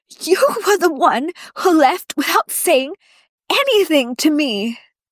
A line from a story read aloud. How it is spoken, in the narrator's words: wheezes